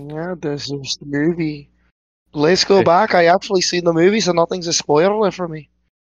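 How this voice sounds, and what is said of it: Put-on Irish accent. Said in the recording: “casually busting out the fucking Irish accent”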